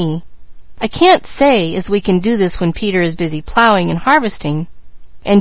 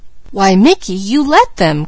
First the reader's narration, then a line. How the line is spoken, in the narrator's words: cried Peaches